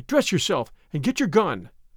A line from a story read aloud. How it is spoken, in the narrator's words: cried